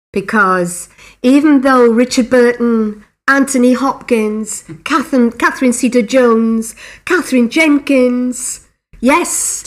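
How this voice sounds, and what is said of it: Welsh accent with musical lilt. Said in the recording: “I can hear a bit of an accent there ... It's a Welsh lilt ... We all have this musical tone to our voices”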